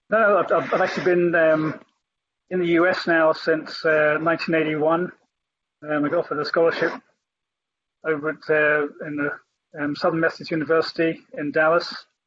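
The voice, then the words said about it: Non-American accent. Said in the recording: “that is certainly not an Atlantan accent”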